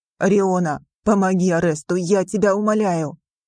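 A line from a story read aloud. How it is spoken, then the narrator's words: Strained hoarse wheeze. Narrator (Russian): прохрипел Мак-Эден, борясь с Гестоном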